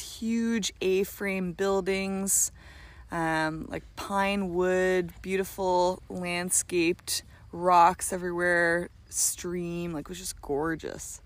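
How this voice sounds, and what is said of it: Raspy voice. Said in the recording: “the amazingly raspy”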